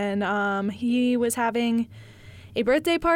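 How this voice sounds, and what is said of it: Usual voice. Nothing is said of it.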